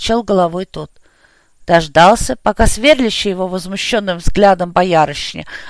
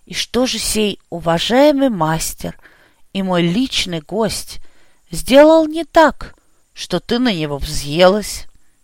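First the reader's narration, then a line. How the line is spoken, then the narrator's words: Quiet inquiry. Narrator (Russian): Тихо поинтересовался Бояров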